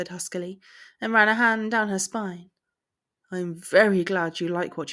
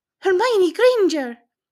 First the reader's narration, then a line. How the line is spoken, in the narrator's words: the woman blurted out